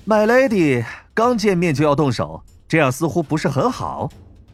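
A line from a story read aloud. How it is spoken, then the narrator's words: Ringmaster, slight smile. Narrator (Chinese): 金发马戏团团长微微一笑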